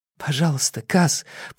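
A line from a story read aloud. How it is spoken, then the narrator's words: Whisper. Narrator (Russian): прошептал Инеш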